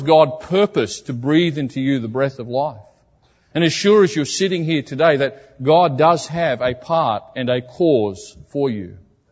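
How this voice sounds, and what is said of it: Foreign accent. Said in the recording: “a man from many miles away with a funny accent”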